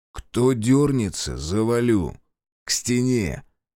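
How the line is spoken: Quiet, menacing. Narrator (Russian): Решетов тихо сказал

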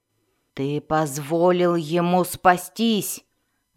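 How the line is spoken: Mother growling at son. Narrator (Russian): зарычала на сына мать Сиинафай

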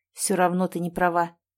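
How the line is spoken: Muffled grumble, no anger. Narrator (Russian): пробурчал в кожу под ухом, но уже без злости

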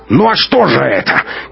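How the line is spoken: Angry shout. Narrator (Russian): крикнул начальник охраны

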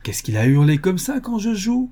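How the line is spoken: Indignant exclamation. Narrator (French): s'écriait-il, indigné

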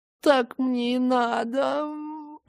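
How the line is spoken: Tearful words through teeth. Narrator (Russian): процедила сквозь слезы

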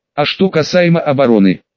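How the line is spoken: Plain question. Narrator (Russian): спросил император Руди

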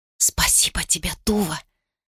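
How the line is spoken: Whisper. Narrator (Russian): шепнула она

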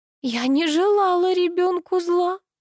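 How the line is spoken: Sobbing. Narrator (Russian): всхлипнула Алла

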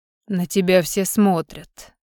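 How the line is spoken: Snorting hmph. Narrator (Russian): хмыкнул Альдар

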